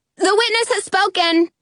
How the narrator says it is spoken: I yell

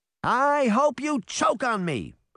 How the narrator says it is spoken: she shouted defiantly

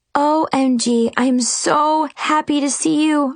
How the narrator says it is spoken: I cried

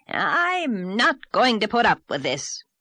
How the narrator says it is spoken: he spluttered

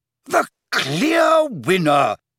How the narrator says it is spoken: cried

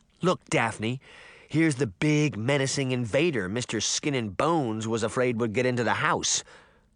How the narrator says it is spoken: Sabrina laughed

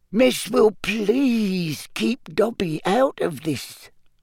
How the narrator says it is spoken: Dobby mumbled, looking scared

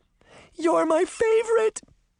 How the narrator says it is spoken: cried

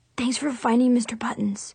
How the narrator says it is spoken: whispered

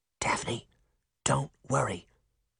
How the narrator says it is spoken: Sabrina whispered

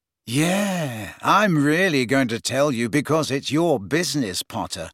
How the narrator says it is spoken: sneered Malfoy

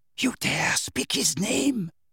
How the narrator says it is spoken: whispered Bellatrix

